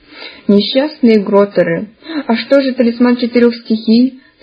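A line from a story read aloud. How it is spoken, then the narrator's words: Sobbing. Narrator (Russian): всхлипнула Медузия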